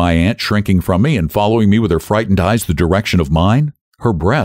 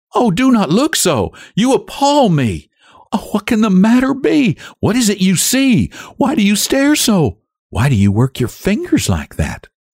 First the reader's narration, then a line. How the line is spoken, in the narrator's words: My aunt cried out